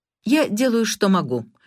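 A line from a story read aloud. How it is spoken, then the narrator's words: Sharp reply. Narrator (Russian): резко отозвалась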